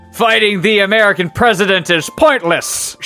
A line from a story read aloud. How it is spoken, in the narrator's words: shouted Eden